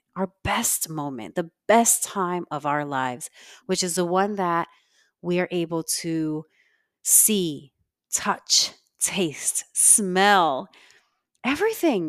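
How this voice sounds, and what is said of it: Congested voice. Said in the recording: “My voice is not back 100% because I'm still very congested”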